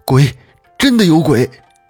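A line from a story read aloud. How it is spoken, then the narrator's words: Breathless, shaken, frightened. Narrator (Chinese): 捕头是喘着粗气，好像惊魂未定一般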